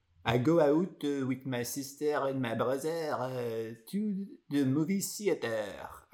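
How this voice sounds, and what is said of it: English with put-on French accent. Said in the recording (French): “Je pouvais prendre l'accent français quand je parlais anglais... tout le monde trouve ça très comique.”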